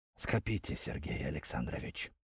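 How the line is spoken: Dull, lifeless reply, groom. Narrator (Russian): потухшим голосом ответил конюх

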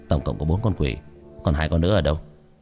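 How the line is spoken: Muttering. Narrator (Vietnamese): Tiểu thất lẩm bẩm

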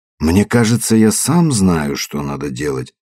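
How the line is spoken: Emphatically calm. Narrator (Russian): произнес подчеркнуто спокойно

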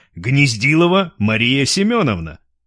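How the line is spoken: Loud bass question. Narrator (Russian): громким басом спросил Лев

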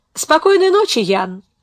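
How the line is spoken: Forced cheerful voice. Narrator (Russian): сказала Беатрис, сделав усилие, чтобы голос звучал весело

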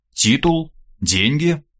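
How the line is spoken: Calm inquiry. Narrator (Russian): спокойно осведомился цесаревич

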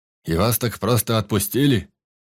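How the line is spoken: Deep bass voice. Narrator (Russian): пробасил Егорыч

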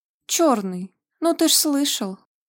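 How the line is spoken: Exclaimed. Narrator (Russian): воскликнула Стига

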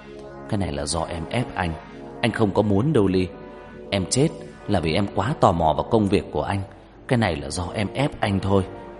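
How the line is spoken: Muttering. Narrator (Vietnamese): Hắn lẩm bẩm trong mồm

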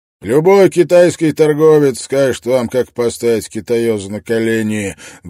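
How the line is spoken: Rude reply. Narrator (Russian): грубо ответил Брок

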